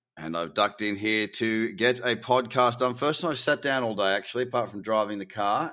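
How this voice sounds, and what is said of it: Slightly labored, tired voice. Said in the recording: “my voice sounds a little labored, it's because I have been moving house all day”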